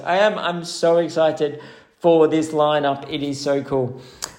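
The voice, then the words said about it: Excited voice. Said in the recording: “Hopefully you can tell that in my voice.”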